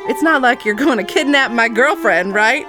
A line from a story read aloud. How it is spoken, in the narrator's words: He said, chuckling